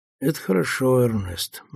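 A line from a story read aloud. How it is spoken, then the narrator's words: Gloomy remark. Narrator (Russian): мрачно замечает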